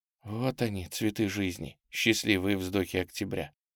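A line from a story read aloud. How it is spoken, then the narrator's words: Whisper with pained smirk. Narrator (Russian): шепнула Тамара с какой-то болезненной усмешкой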